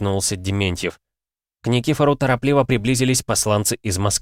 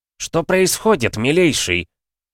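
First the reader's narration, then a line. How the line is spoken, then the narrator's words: Sharp inquiry. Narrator (Russian): резко осведомился секретарь совбеза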